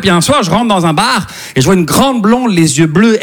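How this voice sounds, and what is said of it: Slight Québécois French accent. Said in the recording (French): “ça se peut que vous entendiez un petit accent québécois”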